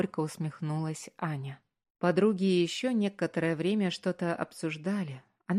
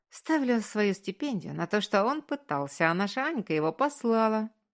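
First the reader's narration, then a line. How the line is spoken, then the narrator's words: Short chuckle. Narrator (Russian): хохотнула Настя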